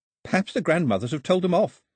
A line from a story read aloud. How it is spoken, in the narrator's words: said Daphne, giggling